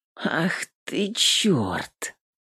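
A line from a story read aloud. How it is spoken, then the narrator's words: Woman breathless, through teeth. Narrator (Russian): сквозь зубы процедила женщина, переводя дух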